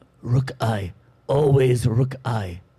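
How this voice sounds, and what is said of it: Stereotyped Mr. Miyagi accent impression. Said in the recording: “Culturally inappropriate, like might be stereotypical, slightly racist ... Is that Karate Kid, Mr. Miyagi? ... That was Miyagi ... same accent”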